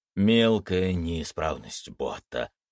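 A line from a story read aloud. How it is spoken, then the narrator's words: Grumbled. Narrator (Russian): проворчал Амрит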